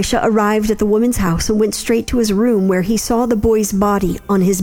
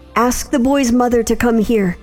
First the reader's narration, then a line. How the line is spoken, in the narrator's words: Elisha called out to Gehazi